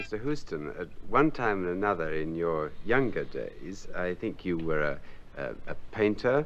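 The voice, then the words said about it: Put-on English accent. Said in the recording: “I can do a pretty good English accent ... it's me speaking with an English accent”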